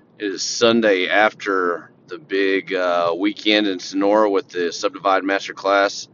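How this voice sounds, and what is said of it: Worn-out, rough voice. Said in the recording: “My voice is pretty crappy. I apologize, but I've been talking all weekend.”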